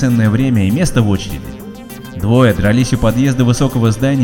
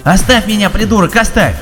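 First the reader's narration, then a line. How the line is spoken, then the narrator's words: Yelling. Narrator (Russian): вопил он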